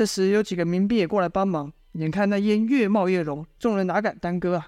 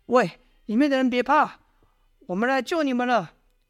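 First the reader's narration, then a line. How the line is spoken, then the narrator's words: Shouting. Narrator (Chinese): 喊了几声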